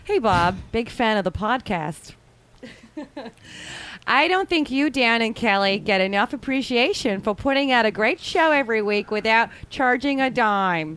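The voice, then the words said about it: Bad put-on Midwestern accent. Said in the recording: “Can I do it in Midwestern? ... she should work on the Midwestern accent ... Pretty god-awful ... One of those words sounded accurate.”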